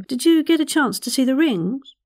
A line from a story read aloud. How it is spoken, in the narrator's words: Leslie blurted